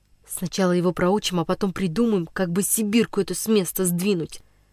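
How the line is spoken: Whispering in ear. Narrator (Russian): нашептывал на ухо Никсу Денис Иванов

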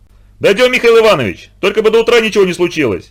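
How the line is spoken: Shouting. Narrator (Russian): прокричал Микешин

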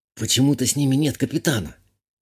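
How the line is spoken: Whisper. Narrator (Russian): шепотом сказала я

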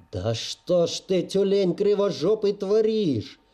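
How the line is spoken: Furious yelling from below. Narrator (Russian): орал с нижней ступеньки багровый от ярости начальник

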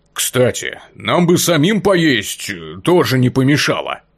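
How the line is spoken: Grumbling ogre. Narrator (Russian): проворчал Огр

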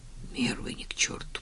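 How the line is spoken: Muttered. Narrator (Russian): пробормотал

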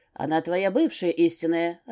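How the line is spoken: Growl. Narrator (Russian): рыкнул Кирк

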